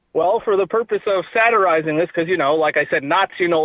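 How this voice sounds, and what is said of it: Usual voice. Nothing is said of it.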